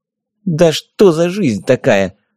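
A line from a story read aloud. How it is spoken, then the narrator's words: Fairy grumbling. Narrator (Russian): проворчала фея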